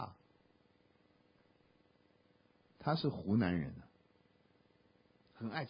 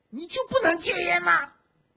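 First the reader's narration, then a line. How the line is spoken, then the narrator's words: Tearful pleading. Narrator (Chinese): 讲到我们都哭了，就跟他说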